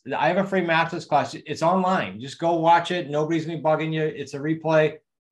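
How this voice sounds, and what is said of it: New England accent, fast speech. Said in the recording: “my New England accent and my speed”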